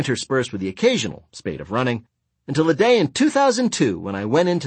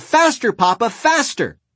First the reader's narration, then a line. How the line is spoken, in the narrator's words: a few girlish yells